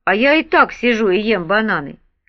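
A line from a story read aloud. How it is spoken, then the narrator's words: Angry grating voice. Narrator (Russian): Хат злобно скрижетнул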